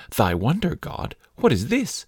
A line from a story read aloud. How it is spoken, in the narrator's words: The man was very much astonished and exclaimed